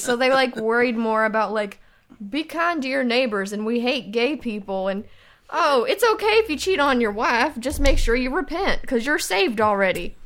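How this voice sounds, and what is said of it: Noticeable regional accent. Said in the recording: “I love this accent I'm hearing from you right now. This is new.”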